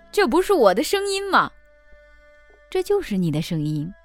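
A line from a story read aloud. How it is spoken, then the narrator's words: Astonished man exclaiming. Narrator (Chinese): 父亲吃惊地叫起来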